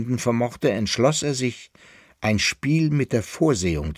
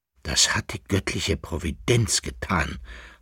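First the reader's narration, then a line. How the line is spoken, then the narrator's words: Young man's whisper. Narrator (German): flüsterte der Sohn des Kaisers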